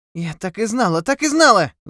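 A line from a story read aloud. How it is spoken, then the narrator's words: Wail. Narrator (Russian): завопила Тефара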